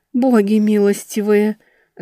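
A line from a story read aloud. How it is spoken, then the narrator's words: Moaning. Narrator (Russian): застонала старшая боярыня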